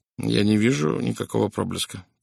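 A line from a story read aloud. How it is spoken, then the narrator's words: Muttered. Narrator (Russian): пробормотал он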